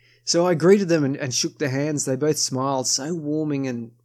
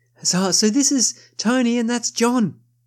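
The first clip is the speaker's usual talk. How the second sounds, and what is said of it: Exuberant imitation of a woman's voice. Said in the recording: “I'm continuing the Venus impersonation ... she's a very sort of, very particular lass in the way she talks. Her energy is quite exuberant.”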